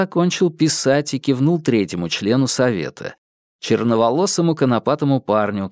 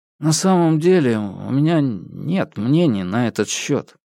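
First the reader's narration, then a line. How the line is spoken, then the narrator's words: Mumbling. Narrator (Russian): промямлил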